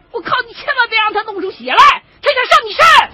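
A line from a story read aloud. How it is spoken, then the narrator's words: Shout. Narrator (Chinese): 那边的黑瘦子喊了一声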